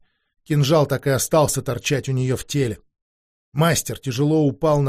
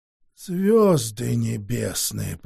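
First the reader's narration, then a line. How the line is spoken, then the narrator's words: Hoarse wheeze. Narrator (Russian): просипел мастер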